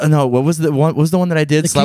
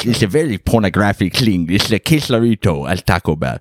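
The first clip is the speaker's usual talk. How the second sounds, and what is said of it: Imitates another person's funny voice. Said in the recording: “He's a philosopher that I like who has a really funny voice.”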